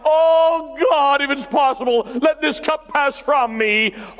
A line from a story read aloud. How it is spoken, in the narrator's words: He cried out